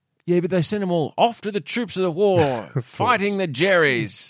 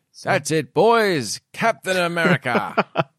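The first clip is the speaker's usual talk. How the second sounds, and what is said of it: Put-on British old radio voice. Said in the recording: “that's my British accent... back then they all sounded a little bit radio voice”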